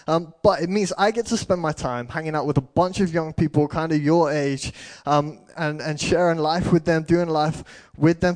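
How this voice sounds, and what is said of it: English accent from near Birmingham. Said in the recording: “I am a youth pastor at Life Central Church, which is just below Birmingham. So if my accent's a little bit of a mess, I apologize.”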